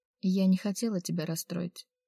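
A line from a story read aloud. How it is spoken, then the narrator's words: Sighing. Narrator (Russian): снова вздохнула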